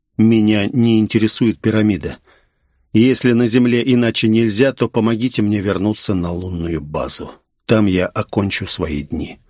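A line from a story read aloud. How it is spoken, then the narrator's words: Calm and firm. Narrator (Russian): сказал спокойно и твердо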